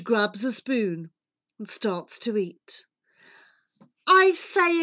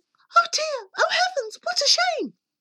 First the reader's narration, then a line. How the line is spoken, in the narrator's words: A nice girl would at once exclaim